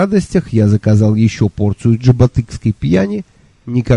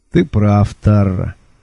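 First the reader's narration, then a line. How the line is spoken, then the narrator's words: Unhappy sigh. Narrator (Russian): вздохнула моя несчастная жертва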